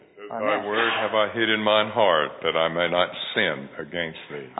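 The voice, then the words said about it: Beautiful deep male voice. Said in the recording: “that's a beautiful, deep voice.”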